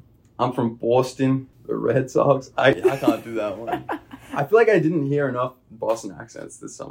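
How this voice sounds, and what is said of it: Usual voice. Nothing is said of it.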